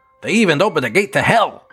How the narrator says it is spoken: exclaimed with his ear-to-ear grin

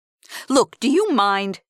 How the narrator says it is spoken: Jerry snapped

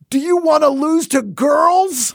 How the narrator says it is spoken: a woman coach of a boys' team we played in sixth grade who, with the game tied 1-1, screamed

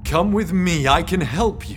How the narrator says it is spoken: James called out

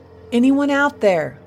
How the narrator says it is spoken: he shouted again

